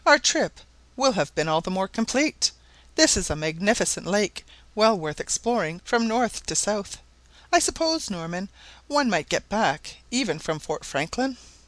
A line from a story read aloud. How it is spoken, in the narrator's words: Barnett cheerfully